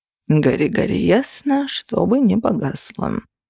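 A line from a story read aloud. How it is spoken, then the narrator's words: Sighing. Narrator (Russian): вздохнул Феникс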